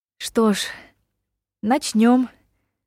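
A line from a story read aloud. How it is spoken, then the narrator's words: Sighing. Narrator (Russian): вздохнула Ева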